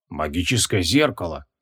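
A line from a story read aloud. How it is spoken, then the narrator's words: Breathless exhale. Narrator (Russian): выдохнул маг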